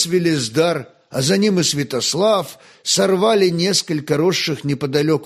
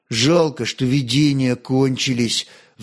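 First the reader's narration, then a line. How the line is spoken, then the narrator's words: Sighing. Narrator (Russian): вздохнул Святослав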